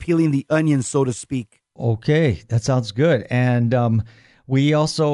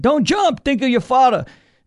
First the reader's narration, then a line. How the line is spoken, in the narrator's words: The cop yells up to the man